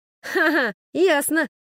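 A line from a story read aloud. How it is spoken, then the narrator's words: Doubtful laugh. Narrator (Russian): рассмеялся Немо, однако в его смехе слышались нотки сомнения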